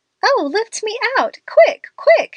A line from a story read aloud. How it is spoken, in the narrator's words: she cried